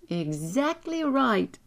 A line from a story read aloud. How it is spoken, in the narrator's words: cried